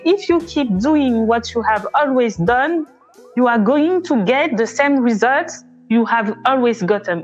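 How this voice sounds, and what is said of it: English with strong French accent. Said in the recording (French): “pardonnez mon accent très français”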